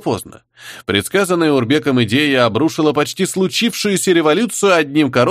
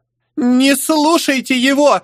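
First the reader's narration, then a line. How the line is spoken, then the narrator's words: Child's shrill wail. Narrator (Russian): завопила сопля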